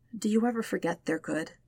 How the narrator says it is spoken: Sokka asks quietly

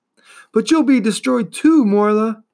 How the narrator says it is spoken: cried Atreyu angrily

